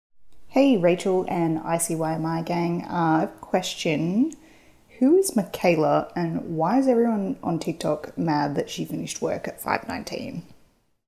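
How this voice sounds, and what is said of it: Speaks with a distinct accent. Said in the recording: “I love your accent ... lose that accent”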